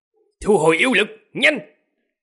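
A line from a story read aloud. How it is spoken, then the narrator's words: Alarmed sharp bark. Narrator (Vietnamese): Tên thống lĩnh có nét mặt âm trầm chợt biến sắc, quát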